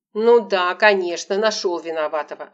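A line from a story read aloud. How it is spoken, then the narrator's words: Snapping, irritated. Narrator (Russian): огрызнулась Лола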